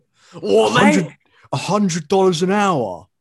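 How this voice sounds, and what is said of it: Exaggerated British accent. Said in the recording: “you intensify your British accent ... When I get surprised, I, I get more British”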